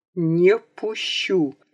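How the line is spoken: Sharp, through clenched teeth. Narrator (Russian): резко отчеканил он сквозь стиснутые зубы

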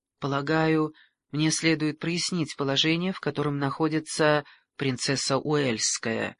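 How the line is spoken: Hesitant. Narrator (Russian): неуверенно произнес он

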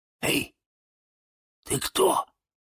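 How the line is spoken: Quiet question. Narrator (Russian): тихонько спросил

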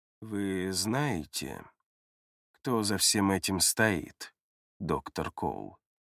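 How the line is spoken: Slow. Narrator (Russian): медленно произносит он

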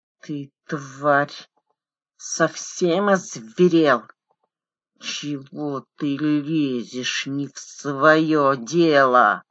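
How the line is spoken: Forceful hiss. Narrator (Russian): с напором прошипел Квит

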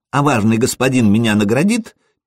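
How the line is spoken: Child's squeak. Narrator (Russian): пискнул малец

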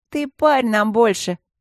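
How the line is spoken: Indignant snort. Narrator (Russian): возмущенно фыркнула Ленка

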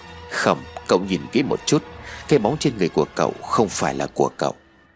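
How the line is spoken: Quiet serious voice. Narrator (Vietnamese): khuôn mặt nghiêm cẩn, nhỏ giọng rồi nói

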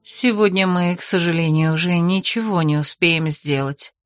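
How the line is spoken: Soft announcement. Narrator (Russian): мягко объявила Бетриса

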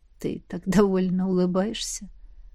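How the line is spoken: Whisper. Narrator (Russian): прошептал Костя

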